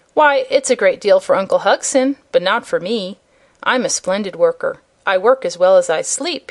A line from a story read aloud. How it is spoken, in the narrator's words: he added with a laugh